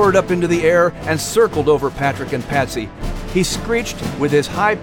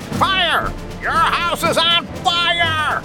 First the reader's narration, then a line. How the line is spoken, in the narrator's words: The eagle continuing to screech